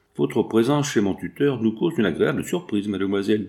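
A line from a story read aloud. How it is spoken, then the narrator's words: Plain. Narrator (French): dit Georges Darrier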